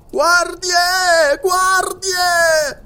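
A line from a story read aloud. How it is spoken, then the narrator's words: Governor's shrill shriek. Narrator (Italian): strillò il governatore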